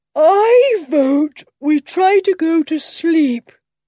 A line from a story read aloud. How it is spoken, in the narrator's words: said Dick, yawning hugely